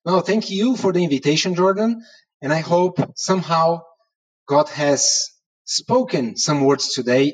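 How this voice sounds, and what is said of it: Portuguese accent in English. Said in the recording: “even in Portuguese accent ... With very good English”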